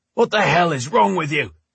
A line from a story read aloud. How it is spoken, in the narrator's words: Drake shouted